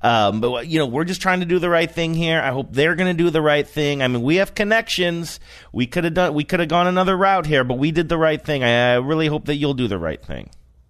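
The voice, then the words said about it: Bad put-on mobster accent. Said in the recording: “that's where it sounds like mobs ... I know my accent's terrible”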